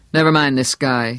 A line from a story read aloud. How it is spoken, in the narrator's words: said harshly